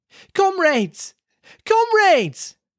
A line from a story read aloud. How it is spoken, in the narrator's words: they shouted